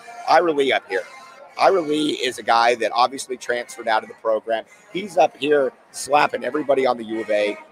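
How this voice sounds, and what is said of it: Strained, hoarse voice from yelling. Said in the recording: “losing my voice. I've been yelling for like three straight days”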